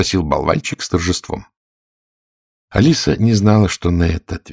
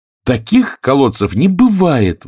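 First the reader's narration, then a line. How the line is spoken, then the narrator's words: Indignant shout. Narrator (Russian): возмущенно закричала Алиса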